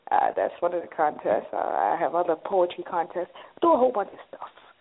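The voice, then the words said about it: New York accent. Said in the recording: “I love your New York accent. It is so dope. ... you bringing that New York up in here”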